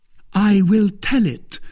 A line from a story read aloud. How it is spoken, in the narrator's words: cried Milady, with a feigned exultation